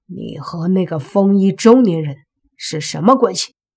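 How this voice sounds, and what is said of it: Cold, menacing voice. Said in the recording (Chinese): “用阴冷的声音说”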